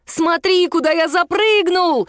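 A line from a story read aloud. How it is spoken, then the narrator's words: Joyful shout. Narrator (Russian): радостно крикнул Мишун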